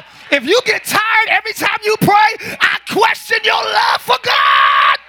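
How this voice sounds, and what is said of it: Screaming loudly. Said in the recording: “sorry for screaming that. I scream sometimes.”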